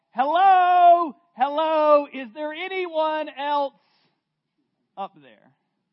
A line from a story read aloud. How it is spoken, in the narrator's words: Jack let out a loud yell